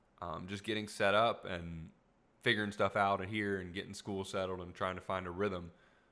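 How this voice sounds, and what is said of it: Tired, fading voice. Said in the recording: “losing my voice much quicker. Even right now, I can tell that I'm losing my voice”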